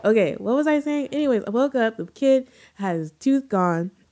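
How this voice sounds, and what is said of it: Stuffy, congested voice from illness. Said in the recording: “I'm sick, you guys. And so if I sound stuffy, we're all sick.”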